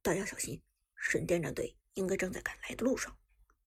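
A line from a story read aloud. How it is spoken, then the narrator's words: Deep grave voice. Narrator (Chinese): 苏哲沉声说道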